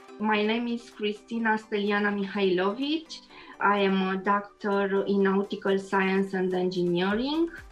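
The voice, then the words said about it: Romanian accent. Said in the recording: “I love your accent. ... I am Romanian”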